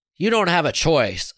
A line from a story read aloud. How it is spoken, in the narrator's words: Sarah snapped